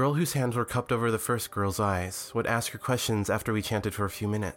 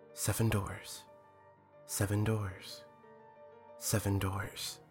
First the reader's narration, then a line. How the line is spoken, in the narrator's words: chant softly